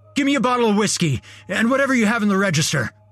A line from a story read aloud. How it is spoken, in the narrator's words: he barked